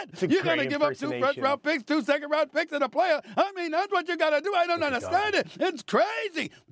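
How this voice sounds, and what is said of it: Impression of Mad Dog Russo. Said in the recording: “That's a tremendous impersonation of Mad Dog, by the way, Stephen A. Beautiful job.”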